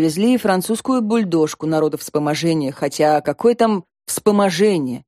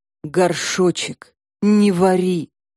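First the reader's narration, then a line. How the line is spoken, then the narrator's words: Groaning reply. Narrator (Russian): простонал хирург в ответ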